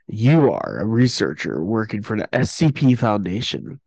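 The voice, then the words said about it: Serious, grave narration voice. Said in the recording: “In a serious voice.”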